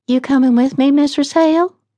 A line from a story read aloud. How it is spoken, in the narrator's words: asked nervously